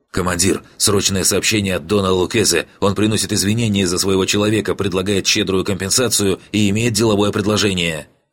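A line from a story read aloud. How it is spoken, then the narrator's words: Rapid nervous chatter. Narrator (Russian): он затараторил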